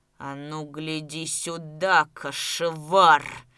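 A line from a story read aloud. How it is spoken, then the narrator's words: Growling. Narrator (Russian): зарычал он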